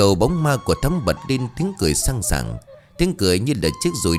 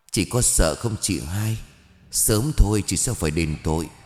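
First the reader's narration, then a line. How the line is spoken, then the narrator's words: Faint yet menacing, through teeth. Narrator (Vietnamese): Thắm với giọng nói thều thào nhưng đầy quyền lực nghiến răng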